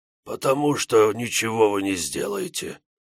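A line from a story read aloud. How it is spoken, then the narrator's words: Wheezing dead man. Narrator (Russian): просипел мертвец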